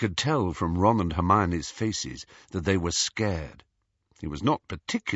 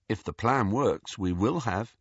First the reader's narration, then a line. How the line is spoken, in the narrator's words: Harry continued calmly